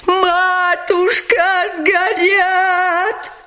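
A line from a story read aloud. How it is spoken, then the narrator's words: Wailing yell. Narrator (Russian): вопил Лебедев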